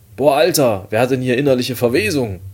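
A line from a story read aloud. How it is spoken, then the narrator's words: Loud shout. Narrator (German): rief ich laut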